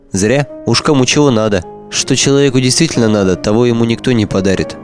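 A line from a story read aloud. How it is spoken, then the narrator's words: Youthful naive sigh. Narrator (Russian): вздохнул Ларик с наивной многозначительностью юности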